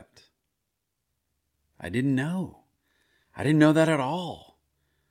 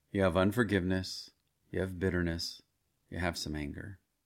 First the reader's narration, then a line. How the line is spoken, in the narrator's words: Gently, he continued